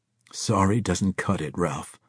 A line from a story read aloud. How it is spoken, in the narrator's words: the scorpion growled